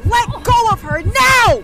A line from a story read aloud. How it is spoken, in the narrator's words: I screamed